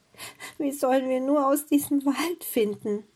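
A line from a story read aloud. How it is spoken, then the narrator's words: Sobbing. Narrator (German): Gretel begann wieder zu weinen und sagte schluchzend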